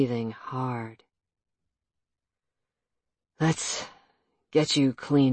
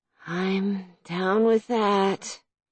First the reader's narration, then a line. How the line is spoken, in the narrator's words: she slurred